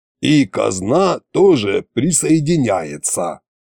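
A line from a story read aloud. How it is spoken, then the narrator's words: Grumbling. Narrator (Russian): пробурчал Кощей сбоку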